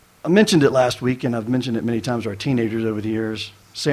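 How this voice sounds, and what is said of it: Usual voice. Nothing is said of it.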